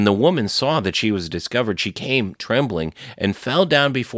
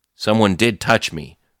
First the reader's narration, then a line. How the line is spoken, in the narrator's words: said Jesus